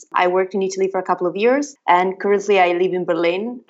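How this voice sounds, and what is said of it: Italian accent. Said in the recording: “I guess you can hear from the accent, but I'm Italian”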